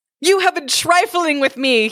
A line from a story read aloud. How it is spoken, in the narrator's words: he cried